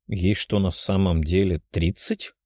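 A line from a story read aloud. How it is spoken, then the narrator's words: Quiet question, young man. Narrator (Russian): тихо спросил парень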